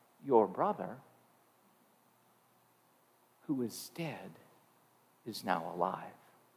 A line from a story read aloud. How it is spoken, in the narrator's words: she would look at him softly and say